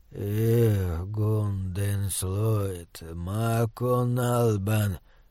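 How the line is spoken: Muttering in foreign tongue. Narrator (Russian): пробормотал он нернистериском

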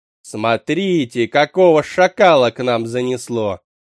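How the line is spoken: Loud, for all to hear. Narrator (Russian): Громко так, чтобы все услышали, бросила она

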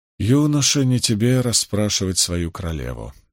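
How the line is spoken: Gentle but firm. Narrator (Russian): мягко, но твердо ответила Моргейс

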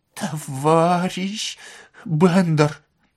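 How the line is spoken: Pleading. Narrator (Russian): взмолился Воробьянинов

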